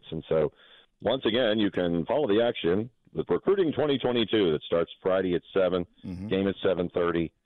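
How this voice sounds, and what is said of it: Sports announcer voice. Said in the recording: “Love how you broke into the announcer voice there. ... I tried to go in the announcer voice”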